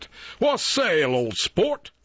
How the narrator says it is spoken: they shouted back

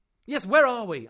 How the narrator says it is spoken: I repeated slightly impatiently

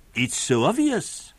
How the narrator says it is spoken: exclaimed

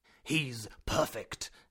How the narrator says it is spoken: exclaimed my uncle

